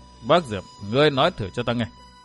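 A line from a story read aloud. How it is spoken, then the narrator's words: Cold sneering. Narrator (Vietnamese): Vô tình cốc chủ cười nhạt nói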